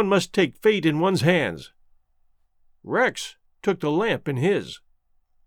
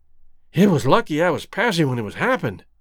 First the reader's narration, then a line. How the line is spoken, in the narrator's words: panted Rex